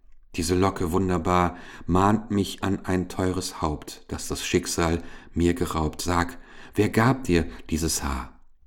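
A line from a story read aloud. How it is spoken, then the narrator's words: Sigh. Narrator (German): Goldwiner wie aus tiefem Sinnen erwachend seufzte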